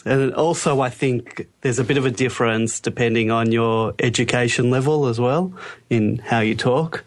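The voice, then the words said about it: Australian accent. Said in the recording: “Random Australian ... your accent from the East Coast to the West Coast in Australia”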